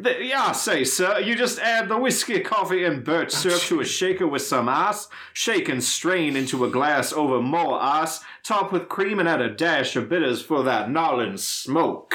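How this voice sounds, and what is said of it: Foghorn Leghorn cartoon voice. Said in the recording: “It's going to be an episode of Foghorn Leghorns, for sure.”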